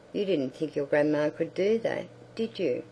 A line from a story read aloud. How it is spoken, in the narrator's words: said